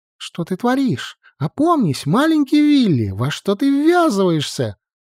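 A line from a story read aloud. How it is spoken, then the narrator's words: Anxious squeaking inner voice. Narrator (Russian): Тревожно запищал внутренний голос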